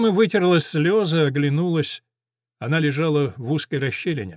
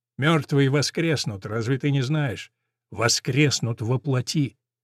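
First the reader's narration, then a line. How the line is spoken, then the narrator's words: Calm. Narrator (Russian): Голос его звучал спокойно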